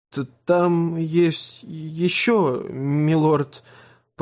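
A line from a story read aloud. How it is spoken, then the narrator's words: Mumble. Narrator (Russian): промямлил Сэм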